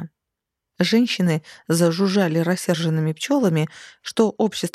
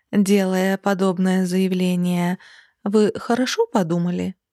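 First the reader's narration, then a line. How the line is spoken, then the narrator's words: Velvety purr with hidden edge. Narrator (Russian): Вкрадчиво промурлыкала она, но за кажущимся бархатом голоса ощущалось нечто твердое и острое, как вампирские клыки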